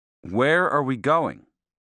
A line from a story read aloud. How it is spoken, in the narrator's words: I asked